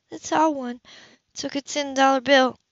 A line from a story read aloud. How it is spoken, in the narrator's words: she faltered, hating her own cowardice as she sobbed helplessly